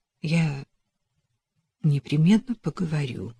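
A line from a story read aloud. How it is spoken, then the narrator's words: Rather uncertain reply. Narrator (Russian): ответила Эллен довольно неуверенно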